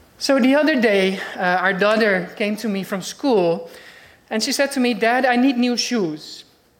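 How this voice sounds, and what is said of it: Dutch-accented English. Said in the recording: “a Dutch accent”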